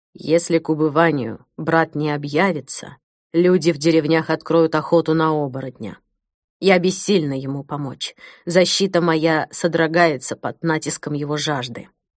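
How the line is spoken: Quiet. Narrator (Russian): тихо сказала

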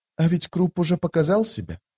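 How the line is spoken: Quiet. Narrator (Russian): тихо проговорила она

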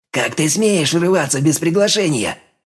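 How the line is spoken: Hissed. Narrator (Russian): прошипел он

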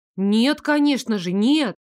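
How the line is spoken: Exclamation. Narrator (Russian): воскликнула я

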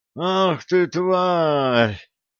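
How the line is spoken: Hoarse rasp from behind. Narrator (Russian): прохрипел ханурик за спиной

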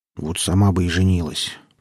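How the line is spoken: Barely audible grumble. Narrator (Russian): проворчал Тамьян едва слышно

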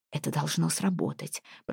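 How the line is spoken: Whispered. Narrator (Russian): прошептала она

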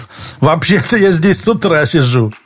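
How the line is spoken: Laughing. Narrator (Russian): рассмеялся Лис

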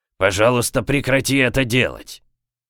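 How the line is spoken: Wheezing through speaker. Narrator (Russian): Прохрипел динамик

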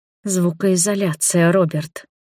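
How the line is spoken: Hiss through teeth. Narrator (Russian): шикнула сквозь зубы

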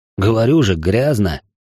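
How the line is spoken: Grumbling. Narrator (Russian): проворчал я

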